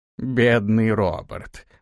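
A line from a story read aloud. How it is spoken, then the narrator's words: Old man's mocking tone. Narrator (Russian): насмешливо произнес старик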